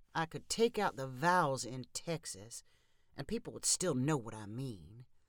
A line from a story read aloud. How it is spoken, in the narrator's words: Travis mumbled